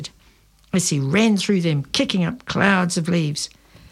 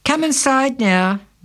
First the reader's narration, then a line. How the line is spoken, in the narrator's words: Mum called out from the kitchen window